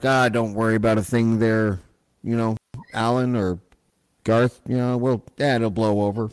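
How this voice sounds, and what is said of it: Imitates a Saskatchewan police officer. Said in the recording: “that's my impersonation of a Saskatchewan cop”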